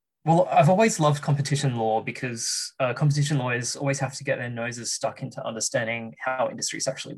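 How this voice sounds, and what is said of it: Australian accent. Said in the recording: “he's got a very exotic accent... It's probably because I'm Australian. That explains the accent”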